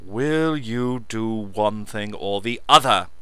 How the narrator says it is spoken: Lance spat

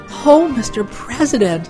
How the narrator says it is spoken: Spice exclaimed

